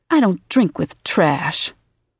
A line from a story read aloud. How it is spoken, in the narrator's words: Karen Steele responded coldly